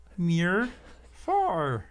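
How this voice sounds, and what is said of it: Grover-like Muppet character voice. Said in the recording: “That's Grover. ... That was definitely Grover, yeah.”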